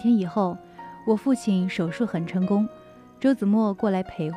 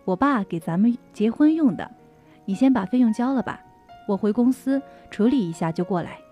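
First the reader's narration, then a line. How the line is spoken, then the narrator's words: Smiling. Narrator (Chinese): 他笑了笑说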